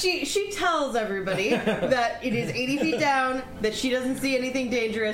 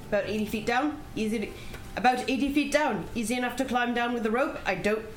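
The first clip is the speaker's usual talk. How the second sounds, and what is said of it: Put-on British accent. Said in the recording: “How did I go British? ... British. ... That is Mary Poppins weird.”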